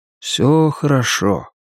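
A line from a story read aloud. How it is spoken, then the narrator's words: Soft repetition. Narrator (Russian): мягко повторил он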